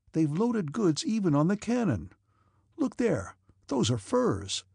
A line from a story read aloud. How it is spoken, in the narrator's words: they exclaimed